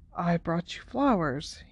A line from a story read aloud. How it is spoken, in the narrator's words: he said quietly